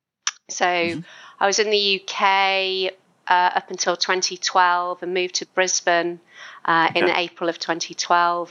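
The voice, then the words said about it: British-sounding accent. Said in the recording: “as you can hear from my accent, quite a large proportion of that was in the UK”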